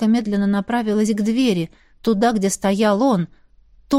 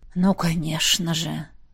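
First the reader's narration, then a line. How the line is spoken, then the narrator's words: Displeased grumble. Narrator (Russian): проворчал недовольный сын Пеппера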